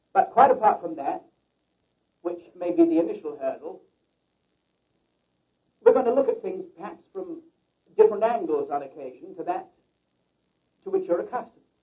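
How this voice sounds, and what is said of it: English accent. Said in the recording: “I speak with a peculiar accent. ... Because I was born in England ... And we all talk that way. ... my peculiar accent”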